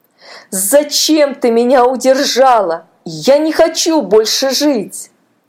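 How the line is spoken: Wailing. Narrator (Russian): Паша завопил

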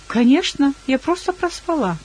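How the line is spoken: Cheerful reply. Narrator (Russian): весело ответила

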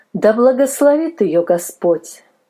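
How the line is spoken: Plain. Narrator (Russian): сказала мадам Милли

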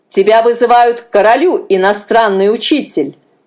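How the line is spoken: Barked. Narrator (Russian): рявкнул он

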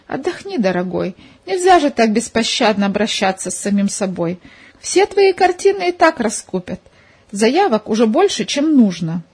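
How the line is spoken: Mock stern. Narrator (Russian): шутливой строгостью

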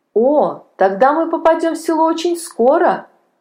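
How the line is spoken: Joyful child's voice. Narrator (Russian): радостно сказал мальчик

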